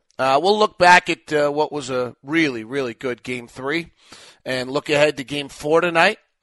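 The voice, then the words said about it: Worn, hoarse voice. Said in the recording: “My voice is a little beaten up”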